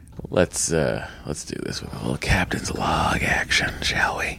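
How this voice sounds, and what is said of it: Whispering. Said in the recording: “I don't know why I'm whispering.”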